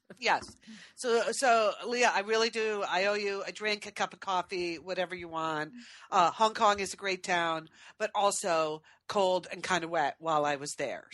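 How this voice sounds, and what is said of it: Sick, under-the-weather voice. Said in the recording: “what you hear in my voice is a little touch of uh, SARS. I seem so so picked up a little bit of something”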